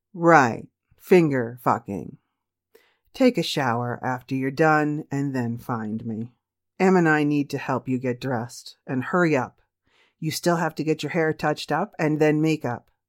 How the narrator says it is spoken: laughingly said

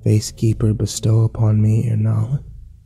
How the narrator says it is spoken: pronounce in a low voice, as humbly as you can

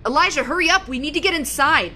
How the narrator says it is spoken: yelling out the door to an unseen man somewhere between us in the woods

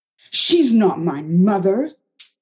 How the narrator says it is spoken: Anna shouted

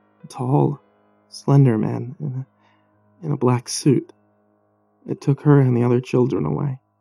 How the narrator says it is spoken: said softly

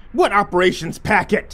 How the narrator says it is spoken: he screamed

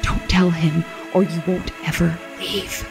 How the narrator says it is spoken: she whispered

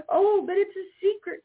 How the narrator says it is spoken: cried Jimmy Skunk

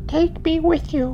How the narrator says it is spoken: the child begged

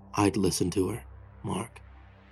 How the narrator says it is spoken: said in a low voice

